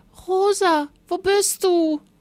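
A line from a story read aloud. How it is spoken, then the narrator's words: Thin voice shouting below. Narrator (German): schrie eine dünne Stimme von unten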